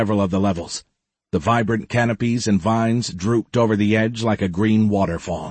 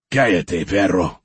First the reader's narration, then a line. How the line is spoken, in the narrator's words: the man growled